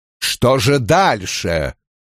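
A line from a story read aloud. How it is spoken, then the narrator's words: Irritated question. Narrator (Russian): раздраженно спросил Скиннер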